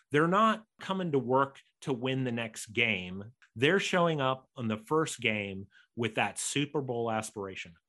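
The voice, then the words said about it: American accent. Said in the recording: “I'm an American, you might know by my accent”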